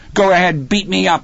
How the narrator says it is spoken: he yelled at Hal, his face twisted and blotchy

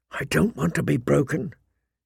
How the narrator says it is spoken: he whispered fiercely to Maester Luan

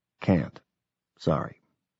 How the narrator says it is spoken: I whispered back

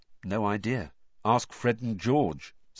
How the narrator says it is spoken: said Harry

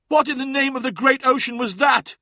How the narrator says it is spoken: cried Sobek

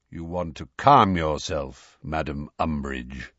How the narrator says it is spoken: said Kingsley in his deep, slow voice

